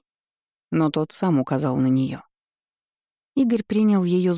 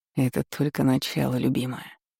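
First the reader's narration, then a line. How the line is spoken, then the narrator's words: Murmured. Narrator (Russian): бормотал Игорь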